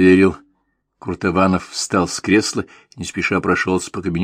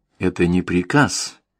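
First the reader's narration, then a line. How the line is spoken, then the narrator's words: Sudden soft, quiet. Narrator (Russian): вдруг мягко, тихо сказал Крутованов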